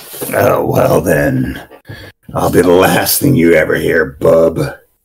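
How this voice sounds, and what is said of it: Imitates a gruff character voice. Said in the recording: “Wolverine”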